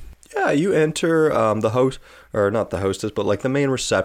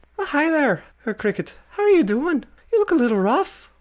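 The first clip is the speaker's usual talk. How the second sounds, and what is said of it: Put-on Irish accent. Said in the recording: “I got to get my Irish accent going.”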